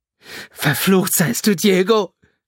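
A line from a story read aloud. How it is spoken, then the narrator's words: Screamed. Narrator (German): schrie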